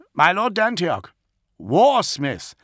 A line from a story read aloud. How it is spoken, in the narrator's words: Caspian called out again